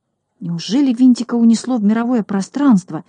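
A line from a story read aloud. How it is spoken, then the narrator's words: Frightened question. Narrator (Russian): испуганно спросил Шпунтик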